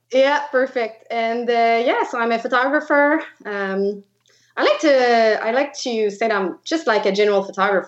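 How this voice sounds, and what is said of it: French Quebecois accent in English. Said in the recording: “I am from Quebec. So I speak French. That's why you'll see my weird accent”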